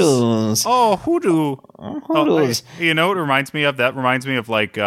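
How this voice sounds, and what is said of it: Usual voice. Nothing is said of it.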